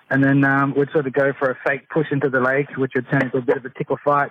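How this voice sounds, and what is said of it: Australian accent. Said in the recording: “In that very sexy Australian accent.”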